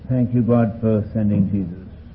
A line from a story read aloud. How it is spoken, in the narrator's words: we'll quietly sing